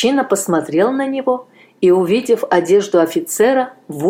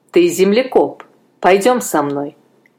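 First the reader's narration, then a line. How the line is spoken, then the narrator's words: Stern. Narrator (Russian): строго сказал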